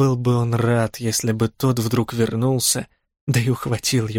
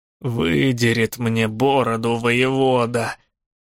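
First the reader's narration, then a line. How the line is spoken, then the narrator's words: Groaned, helmsman. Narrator (Russian): простонал кормщик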